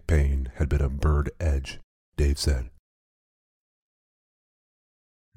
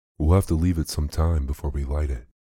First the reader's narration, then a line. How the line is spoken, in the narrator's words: said Dave